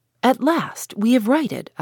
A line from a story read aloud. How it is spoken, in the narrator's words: I exclaimed